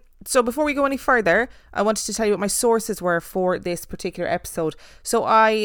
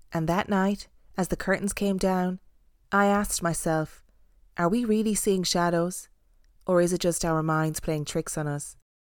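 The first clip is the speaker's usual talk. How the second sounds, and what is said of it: Carrie Bradshaw voice-over impression. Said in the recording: “was my best Carrie Bradshaw impersonation ... sounded like the ending of a Sex and the City episode”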